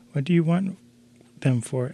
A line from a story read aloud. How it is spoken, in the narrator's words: asked her sister